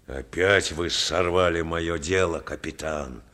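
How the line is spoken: Angry grumble. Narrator (Russian): пробурчал он злобно

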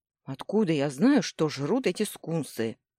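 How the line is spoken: Snapped. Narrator (Russian): огрызнулся

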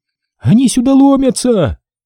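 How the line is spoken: Shouted out window. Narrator (Russian): Все же успела крикнуть в окно Алена

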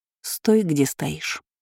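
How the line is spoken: Quiet command. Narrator (Russian): тихо приказала я

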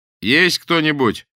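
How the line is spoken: Loud question. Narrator (Russian): громко спросил Андрей Ильич

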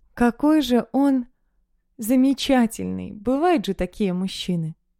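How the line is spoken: Sighing. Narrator (Russian): Вздохнула

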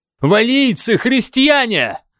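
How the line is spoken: Shout. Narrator (Russian): закричал Ассер

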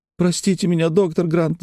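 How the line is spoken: Whimpering. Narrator (Russian): захныкала Лекси

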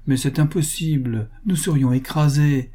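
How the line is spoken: Exclaimed. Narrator (French): s'écria M

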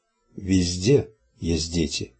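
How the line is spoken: Gentle guard replying. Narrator (Russian): мягко ответил стражник

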